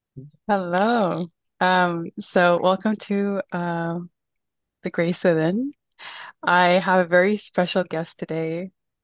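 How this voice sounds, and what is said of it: Slightly shaky nervous voice. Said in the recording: “My voice is like a little shaky because like I'm nervous.”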